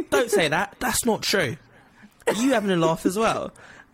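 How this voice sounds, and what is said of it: Imitates another person's voice. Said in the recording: “I start doing the accent ... my Oscar Isaac impression.”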